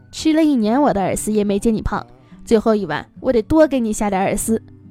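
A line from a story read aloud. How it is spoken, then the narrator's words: Laughing. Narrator (Chinese): 她笑着说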